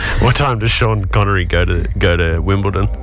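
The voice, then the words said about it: Scottish accent, Sean Connery-style voice. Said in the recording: “Sean Connery. Can you do a Scottish accent?”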